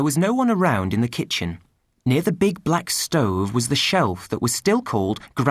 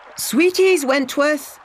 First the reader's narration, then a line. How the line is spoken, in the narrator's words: shouted